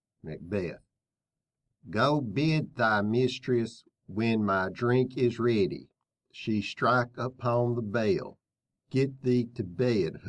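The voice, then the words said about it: Stilted schoolkid reading Shakespeare aloud. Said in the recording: “my impression, my junior high school's English class reading Macbeth”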